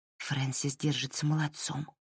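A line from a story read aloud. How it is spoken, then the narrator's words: Whispered. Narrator (Russian): прошептала Лайла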